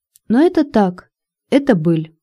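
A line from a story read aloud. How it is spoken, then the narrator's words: Soft, gentle voice. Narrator (Russian): снова заговорила Татьяна мягким ласковым голосом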